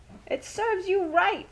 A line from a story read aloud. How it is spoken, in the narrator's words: screamed Rosie